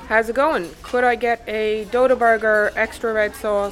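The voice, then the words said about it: Irish accent. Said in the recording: “What accent is that? ... It's Irish.”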